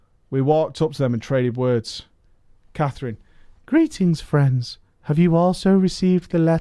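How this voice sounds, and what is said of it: Usual voice. Nothing is said of it.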